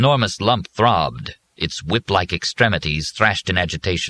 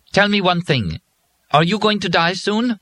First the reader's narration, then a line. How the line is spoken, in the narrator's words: said sharply